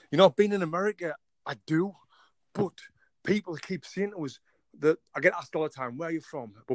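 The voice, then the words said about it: English accent. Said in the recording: “I love your accent ... the last place someone thinks I'm from with this accent is England. I'm actually from England.”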